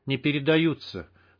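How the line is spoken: Calm correction. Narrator (Russian): спокойно поправил его штык

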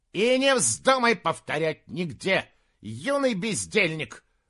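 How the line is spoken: Barking right in face. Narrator (Russian): рявкнула ему в лицо Рэйчел Дракониха, старшая горничная

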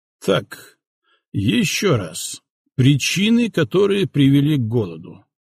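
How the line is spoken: Muffled, hollow voice. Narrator (Russian): глухо начал Сталин

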